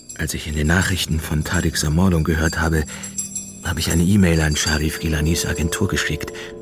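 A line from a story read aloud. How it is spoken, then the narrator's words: Whispered. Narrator (German): flüsterte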